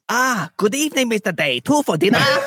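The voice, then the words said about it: Silly put-on unidentifiable accent. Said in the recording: “The accent is just so dumb. I don't know what it's supposed to be”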